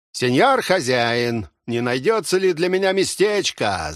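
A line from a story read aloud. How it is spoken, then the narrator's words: Shouting. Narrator (Russian): закричал он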